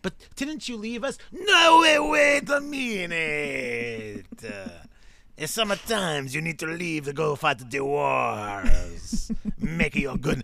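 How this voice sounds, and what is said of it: Put-on accent drifting toward Spanish. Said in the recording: “The accent took a turn. ... I think I was in Spain at that point. ... he's a little Spanish”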